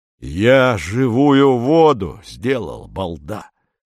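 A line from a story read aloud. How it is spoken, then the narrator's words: Hoarse. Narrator (Russian): хрипит Корнеев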